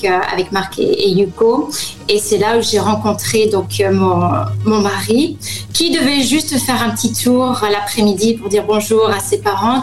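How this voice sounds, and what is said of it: Slight American accent. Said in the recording (French): “tu as un petit accent américain, les auditeurs l'entendent”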